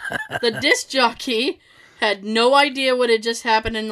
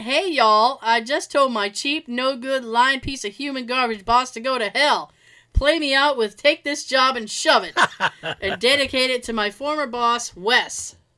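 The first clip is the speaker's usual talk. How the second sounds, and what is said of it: Fake Southern accent. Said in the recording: “in a fake Southern accent”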